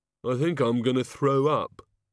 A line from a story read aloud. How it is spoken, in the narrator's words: said the Oh God miserably